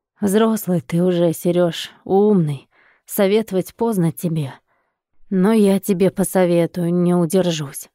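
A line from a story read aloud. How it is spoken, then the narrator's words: Bitter sigh. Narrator (Russian): горько выдохнул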